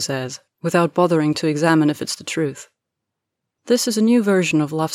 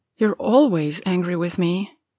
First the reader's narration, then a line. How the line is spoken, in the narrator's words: he murmurs, like he's trying to figure it out himself